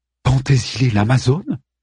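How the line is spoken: Astonished, echoing voice. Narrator (French): dit Andromaque d'une voix étonnée dont l'écho résonne dans le temple de Zeus

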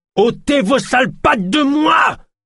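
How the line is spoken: Screamed. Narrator (French): hurla-t-elle

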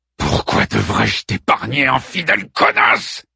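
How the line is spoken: Hissed. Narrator (French): siffle Ménélas

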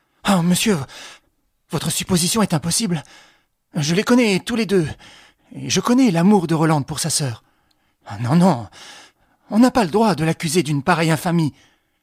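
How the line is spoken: Indignant exclamation. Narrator (French): Félicien eut un geste d'indignation et s'écria

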